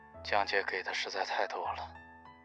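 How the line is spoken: Low voice. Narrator (Chinese): 胡伟低声说

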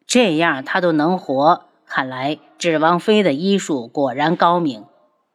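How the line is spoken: Admiring exclamation. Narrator (Chinese): 末了又感叹了一句

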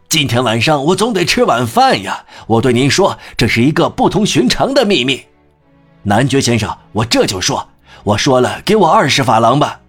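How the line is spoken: Loud. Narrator (Chinese): 他大声说

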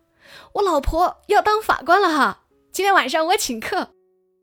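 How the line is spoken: Shouting over phone. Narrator (Chinese): 将军在电话那头冲同事大喊

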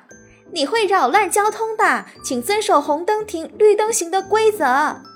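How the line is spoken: Loud clamoring. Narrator (Chinese): 小鹅 大声地嚷嚷

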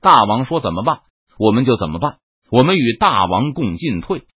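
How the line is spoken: Loud chorus of generals. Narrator (Chinese): 西营众将纷纷……高声说

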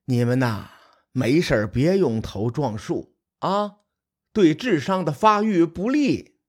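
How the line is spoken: Repeated sighing. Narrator (Chinese): 图案谷……连连叹息，对着手下说

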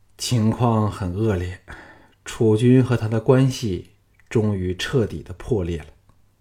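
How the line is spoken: Sighing. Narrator (Chinese): 项少龙叹口气说

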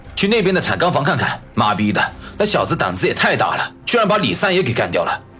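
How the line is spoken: Loud. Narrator (Chinese): 有人大声说道

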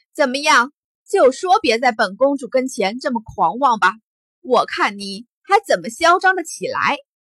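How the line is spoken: Laughing loud shout. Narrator (Chinese): 苏梦还是笑着高声叫道

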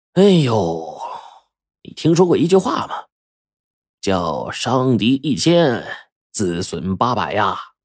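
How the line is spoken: Sighing. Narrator (Chinese): 胡半仙儿一叹，就说

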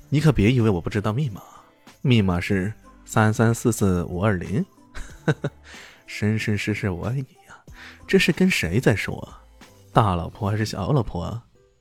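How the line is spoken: Laughing. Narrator (Chinese): 李炫随即笑道

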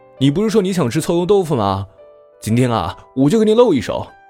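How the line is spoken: Calling into house. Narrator (Chinese): 朝屋里喊

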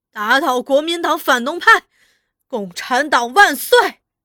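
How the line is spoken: Excited crowd shouting slogans. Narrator (Chinese): 群众激动了，有人在哭，有人也在大声喊口号，痛骂反动派

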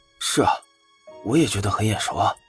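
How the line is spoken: Low voice. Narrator (Chinese): 低声问向一旁的贾四

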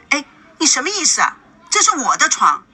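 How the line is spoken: Very angry. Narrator (Chinese): 孙娜非常愤怒的

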